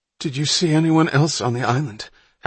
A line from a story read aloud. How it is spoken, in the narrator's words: Hatch asked urgently